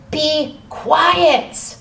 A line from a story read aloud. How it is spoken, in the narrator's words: many of the people yelled